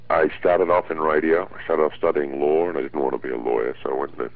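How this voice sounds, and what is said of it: Australian accent. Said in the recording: “you're from Australia originally. Obviously, you have an accent still.”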